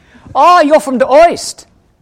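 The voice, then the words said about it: Put-on German accent. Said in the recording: “Sorry about the German accent.”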